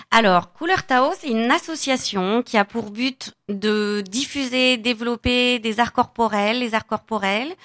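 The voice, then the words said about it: Catalan Spanish accent in French. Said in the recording (French): “Vous avez un joli accent ... ça vient de Barcelone, Espagne. ... La Catalogne.”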